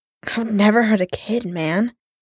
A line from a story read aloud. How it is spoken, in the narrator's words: Clint choked out